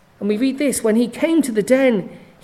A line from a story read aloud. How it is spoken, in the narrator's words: he cried out with a lamenting voice to Daniel